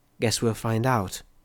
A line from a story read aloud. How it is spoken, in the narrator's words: Bottlecup said softly